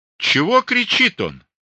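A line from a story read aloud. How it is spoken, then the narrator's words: Loud question. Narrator (Russian): громко спросил Никон у своего эконома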